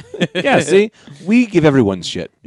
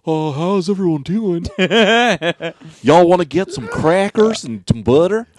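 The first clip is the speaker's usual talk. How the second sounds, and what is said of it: Stereotypical white guy voice. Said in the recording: “Should I do a white guy impression?”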